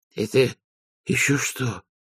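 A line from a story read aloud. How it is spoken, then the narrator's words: Hoarse croak. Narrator (Russian): прохрипел Веренс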